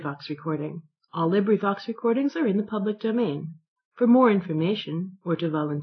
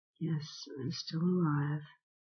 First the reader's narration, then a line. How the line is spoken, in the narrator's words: I answered feebly